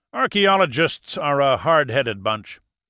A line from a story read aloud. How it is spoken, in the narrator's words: replied Perlmutter